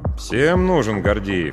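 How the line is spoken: Grumbling. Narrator (Russian): проворчал я

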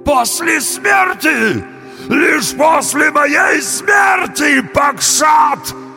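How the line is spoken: Trembling wail. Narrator (Russian): завопил бык, весь дрожа

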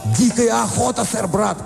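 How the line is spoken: Shout choking on snow. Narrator (Russian): крикнул принц и поперхнулся снегом

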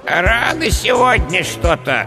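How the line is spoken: Displeased creaky voice. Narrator (Russian): недовольно проскрипел скелет

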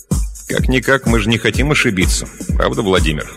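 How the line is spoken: Plain question. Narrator (Russian): спросил он

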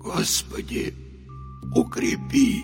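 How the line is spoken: Barely audible, breaking, whimpering mutter. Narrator (Russian): Едва слышно пробормотал Михаил, с омерзением ощущая, как его голос срывается на жалобное поскуливание

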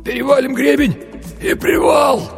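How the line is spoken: Hoarse, wheezing. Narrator (Russian): прохрипел Винни-Пух

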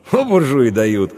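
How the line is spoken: Snorting grunt. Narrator (Russian): хмыкнул Иван

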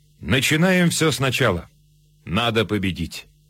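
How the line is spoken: Almost calm. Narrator (Russian): Почти спокойно фельдмаршал сказал

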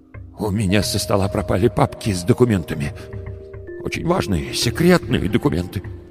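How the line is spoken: Trembling voice. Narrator (Russian): дрожащим голосом сказал

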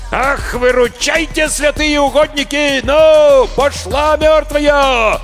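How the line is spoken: Roaring. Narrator (Russian): Взревел Прошка

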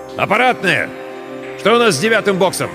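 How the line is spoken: Shouting. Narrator (Russian): закричал

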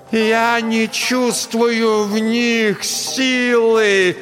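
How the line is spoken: Shouting again at end. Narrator (Russian): Под конец фразы Настя снова закричала

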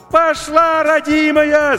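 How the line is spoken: Deafening shout over radio. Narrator (Russian): закричал Максим, оглушая радиоканал

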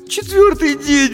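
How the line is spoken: Sobbing. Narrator (Russian): всхлипнула Дженни

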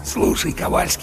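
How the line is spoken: Conspiratorial whisper. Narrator (Russian): заговорщически прошептал в самое ухо третьего сержанта Чарли

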